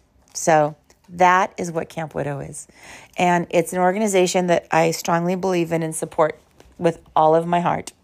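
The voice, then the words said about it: Slightly hoarse voice. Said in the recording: “I'm a little hoarse”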